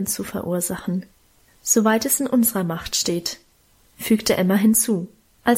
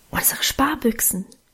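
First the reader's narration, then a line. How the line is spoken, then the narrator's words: Whispering. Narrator (German): flüsterte Alwine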